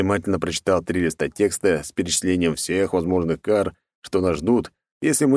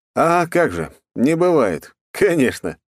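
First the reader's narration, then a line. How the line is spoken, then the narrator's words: Chuckling. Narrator (Russian): хохотнул я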